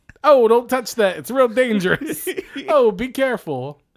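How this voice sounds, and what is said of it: Put-on New York accent. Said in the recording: “with his New York accent.”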